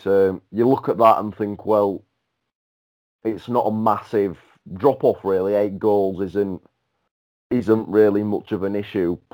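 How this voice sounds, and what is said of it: Hoarse, strained voice. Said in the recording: “sorry, I'm losing my voice.”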